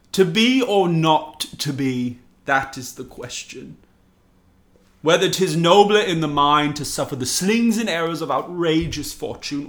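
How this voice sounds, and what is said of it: Put-on English accent reciting Shakespeare. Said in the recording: “In my English accent.”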